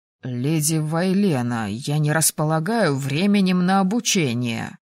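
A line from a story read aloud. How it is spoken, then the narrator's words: Mumbled. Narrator (Russian): промямлил же Элдран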